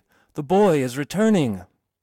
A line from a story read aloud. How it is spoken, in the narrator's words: cried a voice to other voices